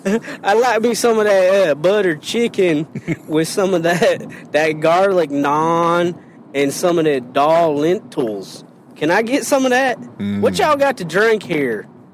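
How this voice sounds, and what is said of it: Put-on hillbilly accent. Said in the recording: “all I want to do is speak like a hillbilly”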